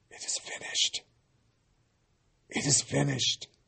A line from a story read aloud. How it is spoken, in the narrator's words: In a little more than a tortured whisper, Jesus said